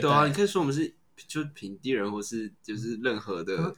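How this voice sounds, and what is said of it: Speaks with a noticeable accent. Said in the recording (Chinese): “有口音。 ... 刚刚是不是 ... 有 ... 口音？ ... 刚刚是有。 ... 讲话比较含糊。”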